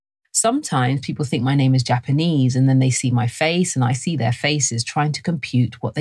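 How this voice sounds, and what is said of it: London English accent. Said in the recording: “I was raised in London, and this is my accent”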